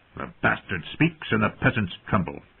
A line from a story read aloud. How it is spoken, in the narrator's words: said in that sharp, cold voice of his